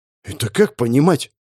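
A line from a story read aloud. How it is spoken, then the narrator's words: Suspicious grumble. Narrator (Russian): подозревая проблему, буркнул я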